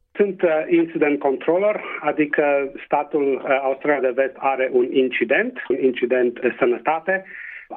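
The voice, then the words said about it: Transylvanian Romanian regional accent. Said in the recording (Romanian): “cu accent ardelenesc”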